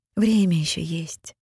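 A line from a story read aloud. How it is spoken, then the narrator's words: Gentle witch. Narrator (Russian): ласково сказала ведьма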